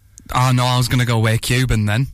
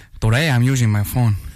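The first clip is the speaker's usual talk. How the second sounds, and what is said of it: Put-on Spanish/Cuban accent. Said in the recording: “Do that in a Spanish accent ... We're very Cuban there ... sounding a bit Scarface”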